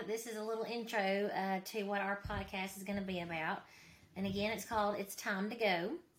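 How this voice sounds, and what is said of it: Mississippi Southern American accent. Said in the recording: “I am from Mississippi, as you can tell by my accent.”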